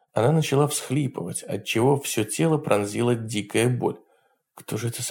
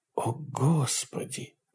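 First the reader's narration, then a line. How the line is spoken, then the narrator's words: Whisper. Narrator (Russian): прошептала она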